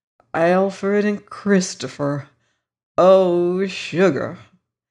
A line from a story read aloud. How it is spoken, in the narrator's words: the Virginian was heard drawling to himself